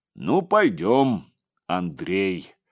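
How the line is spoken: Deep bass stranger. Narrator (Russian): пробасил незнакомец

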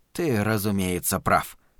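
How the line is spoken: Mumbling. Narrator (Russian): пробормотал Глен

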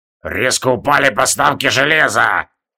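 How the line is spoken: Angry creaking voice. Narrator (Russian): Злобно проскрипел Рорк

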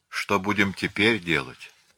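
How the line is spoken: Plain. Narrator (Russian): спросил он

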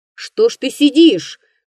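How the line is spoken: Shouting. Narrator (Russian): крикнул охотник на лесника

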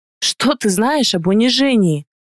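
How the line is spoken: Grumbling reply. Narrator (Russian): бурчала в ответ

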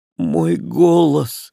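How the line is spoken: Exclaiming. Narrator (Russian): воскликнула Эльвира

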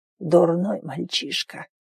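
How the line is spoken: Barely audible mutter. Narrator (Russian): пробормотал еле слышно

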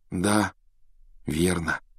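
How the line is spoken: Sigh. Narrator (Russian): вздохнул Гарри

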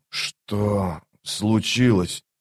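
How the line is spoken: Hoarse rasp. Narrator (Russian): прохрипел

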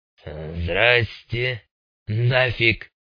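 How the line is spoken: Hoarse greeting. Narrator (Russian): хрипло приветствовал он

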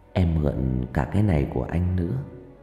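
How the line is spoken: Whisper in the ear. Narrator (Vietnamese): Trang bỗng ghé vào tai tôi thì thầm

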